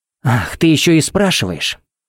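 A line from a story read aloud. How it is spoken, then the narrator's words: Fizzing hiss. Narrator (Russian): Пепси зашипела, как газировка из взболтанной банки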